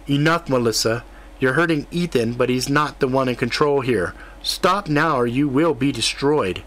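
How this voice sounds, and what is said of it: Flat monotone voice. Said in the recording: “in a monotone voice”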